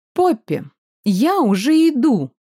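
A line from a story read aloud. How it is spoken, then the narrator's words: Deliberately loud bloodthirsty shout. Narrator (Russian): крикнула нарочито громко и кровожадно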